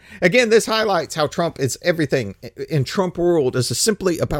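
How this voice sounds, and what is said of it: Usual voice. Nothing is said of it.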